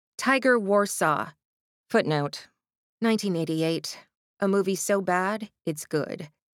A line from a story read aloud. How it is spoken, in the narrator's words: Astrid said icily